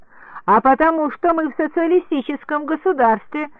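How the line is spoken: Shouting. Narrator (Russian): крикнула я

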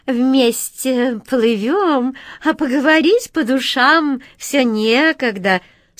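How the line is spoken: Sugary squeaky cat voice. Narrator (Russian): слащавым голосом пропищала кошка

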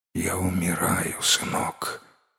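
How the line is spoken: Faint dying whisper. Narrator (Russian): еле шевеля губами прошептал Чу

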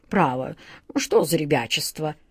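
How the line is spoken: Muttered. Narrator (Russian): пробормотал он

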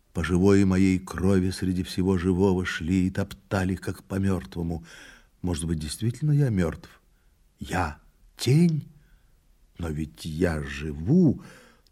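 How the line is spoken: Mumbling. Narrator (Russian): опять забормотал

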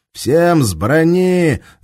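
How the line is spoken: Swaggering officer shouting. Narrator (Russian): закричал им понтовый прапор в лохматой каске

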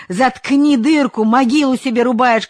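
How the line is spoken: Shouting. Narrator (Russian): кричал Ковалев

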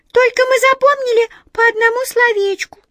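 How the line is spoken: Embarrassed squeak, small mouse. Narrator (Russian): смущенно пискнула одна из мышек

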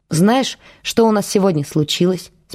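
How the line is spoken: Plain. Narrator (Russian): спросила Вера

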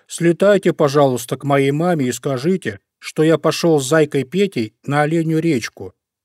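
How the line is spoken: Bear cub shouting. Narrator (Russian): закричал Мишка-медвежушка

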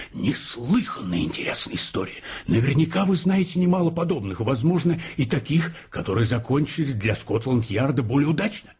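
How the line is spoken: Exclaiming. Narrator (Russian): воскликнув

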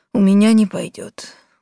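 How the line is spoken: Sad sighing reply. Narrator (Russian): грустно отозвался понедельник, день тяжелый, и снова вздохнул

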